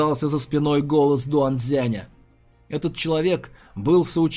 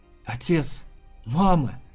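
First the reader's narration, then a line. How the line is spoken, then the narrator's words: Choking tearful whisper. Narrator (Russian): Захлебываясь слезами, прошептал темнокрылый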